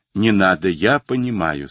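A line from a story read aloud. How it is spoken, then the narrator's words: Plain. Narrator (Russian): сказал Руссо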